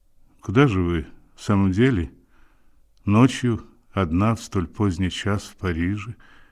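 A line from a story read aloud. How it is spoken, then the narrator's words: Calm question. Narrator (Russian): Спокойно спросил он еще раз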